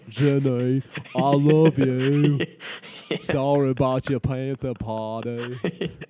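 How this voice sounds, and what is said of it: Forrest Gump character voice. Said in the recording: “My real voice is like Forrest Gump ... that's my real voice as Forrest Gump”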